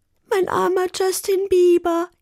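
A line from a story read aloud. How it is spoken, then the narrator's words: Whining. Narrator (German): jammerte Carla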